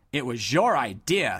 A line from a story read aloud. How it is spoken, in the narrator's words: snapped Sir Lonk angrily